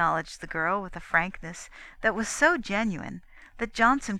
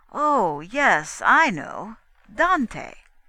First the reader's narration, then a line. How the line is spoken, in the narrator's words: he declared, with difficulty controlling the laughter that well nigh convulsed him